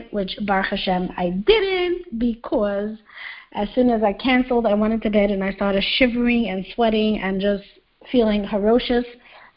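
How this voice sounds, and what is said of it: Lower, less squeaky voice from cold. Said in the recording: “my less than squeaky voice, as usual, because people are just so used to me with my squeaky voice. I have a slight cold”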